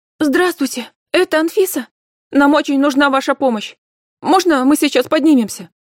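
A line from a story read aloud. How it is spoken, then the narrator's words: Hurried shouting into phone. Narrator (Russian): Торопливо кричал в трубку голос неизвестный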